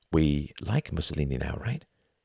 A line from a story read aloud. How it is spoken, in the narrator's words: He whispered